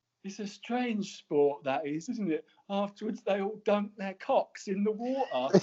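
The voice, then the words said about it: Jimmy Greaves impression. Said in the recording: “That's a great impression as well. ... Brilliant impression. It was almost going towards Frank Spencer, but it was good. It was very good.”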